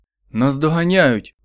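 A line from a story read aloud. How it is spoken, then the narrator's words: Exclaiming. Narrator (Ukrainian): вигукнув Елтон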